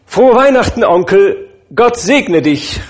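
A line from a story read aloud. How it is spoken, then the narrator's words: Sudden cheerful call. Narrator (German): rief plötzlich eine vergnügte Stimme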